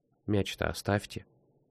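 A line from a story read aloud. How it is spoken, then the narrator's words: Quiet woman's voice. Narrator (Russian): тихо сказала женщина-врач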